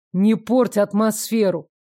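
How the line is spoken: Grumbled. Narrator (Russian): У меня, само собой, получилось проворчать это, а не сказать нормально

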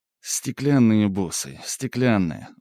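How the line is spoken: Tired. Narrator (Russian): устало произнес Игорь

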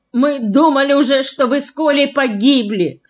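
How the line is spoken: Tearful then joyful laughter. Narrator (Russian): сказала Валя со слезами, но тут же начала громко смеяться от радости

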